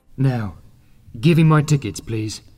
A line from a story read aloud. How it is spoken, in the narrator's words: he said calmly